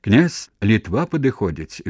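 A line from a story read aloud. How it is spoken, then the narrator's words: Cheerful shout. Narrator (Belarusian): весела закрычаў Халадок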